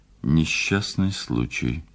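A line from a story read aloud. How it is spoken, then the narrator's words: Mumble. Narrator (Russian): пробормотал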